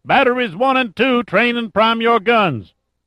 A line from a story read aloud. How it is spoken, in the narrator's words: yelled